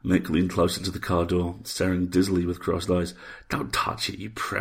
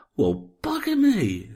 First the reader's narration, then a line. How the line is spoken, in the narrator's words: he exclaimed in whispered awe